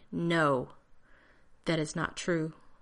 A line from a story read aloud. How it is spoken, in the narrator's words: John said tightly